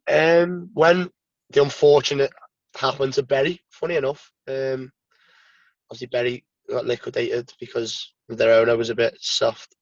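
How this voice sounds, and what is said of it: Regional English accent, not Hull. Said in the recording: “everybody will know from your accent that you're not from Hull”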